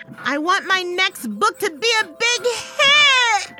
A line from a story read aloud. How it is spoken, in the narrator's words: I screamed